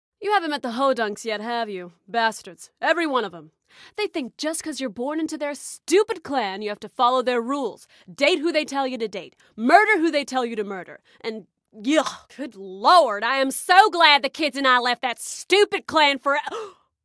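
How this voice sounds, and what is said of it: Character slipping into an accent. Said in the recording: “Did I go back into the accent?”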